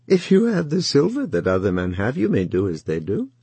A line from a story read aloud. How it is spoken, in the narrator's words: laughed and said